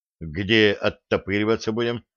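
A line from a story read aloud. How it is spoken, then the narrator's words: Plain question. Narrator (Russian): спросил Денис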